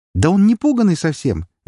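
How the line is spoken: Cheerful exclamation. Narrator (Russian): весело воскликнул Кеннер

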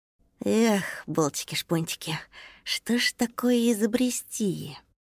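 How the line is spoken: Thoughtful mutter to himself. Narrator (Russian): Задумчиво бормотал он себе под нос

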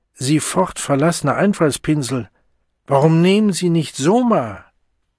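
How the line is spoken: Man calling from distance. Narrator (German): Aus sicherer Entfernung rief der Mann vom Fordian Science Monitor

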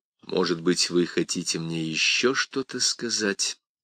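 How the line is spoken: Quiet. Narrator (Russian): тихо вымолвил Карас

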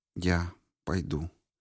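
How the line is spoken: Quiet, hesitant. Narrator (Russian): тихонько сказала она наконец

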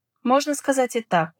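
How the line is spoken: Cheerful reply. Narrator (Russian): весело ответил собеседник

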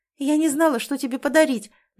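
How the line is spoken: Rapid nervous chatter. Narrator (Russian): начинает тараторить Стефа, будто это ей тяжело дается

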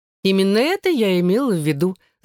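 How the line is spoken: Laughing. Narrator (Russian): засмеялась Элизабет

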